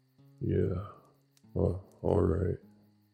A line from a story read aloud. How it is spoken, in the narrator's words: slurred